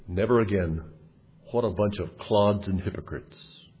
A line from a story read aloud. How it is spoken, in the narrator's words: he muttered to himself